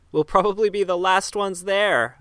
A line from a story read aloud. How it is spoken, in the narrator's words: shouted through the deafening rain